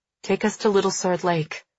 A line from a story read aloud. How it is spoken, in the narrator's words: I murmur